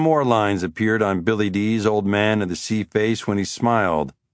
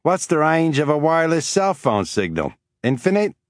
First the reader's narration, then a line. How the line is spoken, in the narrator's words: the Australian said and began laughing